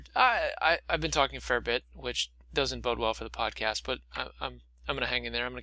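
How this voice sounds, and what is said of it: Tired, worn-out voice. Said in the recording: “my voice is tired”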